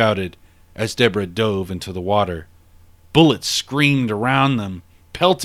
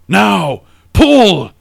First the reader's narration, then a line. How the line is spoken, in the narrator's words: He shouted